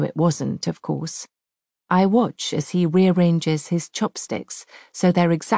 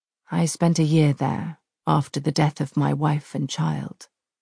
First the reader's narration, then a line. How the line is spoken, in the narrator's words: he answers quietly